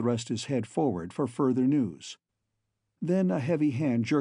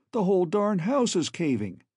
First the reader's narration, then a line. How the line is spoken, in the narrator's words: he exclaimed